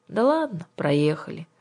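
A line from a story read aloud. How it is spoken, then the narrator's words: Glum. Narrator (Russian): уныло сказала Кира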